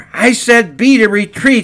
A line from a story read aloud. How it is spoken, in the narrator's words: shouted